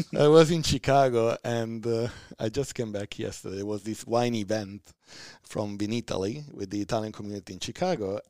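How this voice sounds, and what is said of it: Distinct Italian accent. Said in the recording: “Italian accent... I love your accent. It's so defined and so distinct.”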